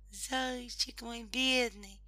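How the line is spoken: Female hare exclaiming. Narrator (Russian): воскликнула зайчиха

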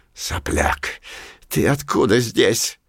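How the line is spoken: Hoarse rasp, grinding fangs. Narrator (Russian): скрипя клыками, прохрипел Пушок

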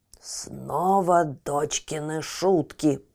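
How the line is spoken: Giant grumbling. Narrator (Russian): пробурчал великан

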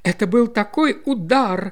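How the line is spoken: Exclaiming lady. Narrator (Russian): воскликнула леди Растенбери

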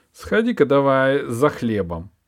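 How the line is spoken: Father's curt sighing order. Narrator (Russian): Вздохнув, коротко бросал отец

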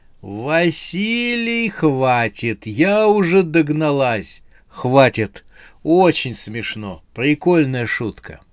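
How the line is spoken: Laughing. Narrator (Russian): Ей вторила Анфиса, она тоже смеялась

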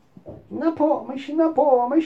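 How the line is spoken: Shrieking dolls. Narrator (Russian): завизжали куклы

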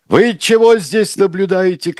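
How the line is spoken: Shouting. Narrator (Russian): крикнул он

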